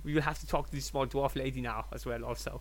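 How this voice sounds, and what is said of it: Put-on drifting German-style accent. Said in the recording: “my accent is starting to divert... Nordic... that's Austrian... This is German.”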